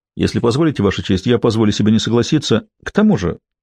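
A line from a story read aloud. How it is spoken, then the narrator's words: Quick. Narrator (Russian): быстро продолжила Медина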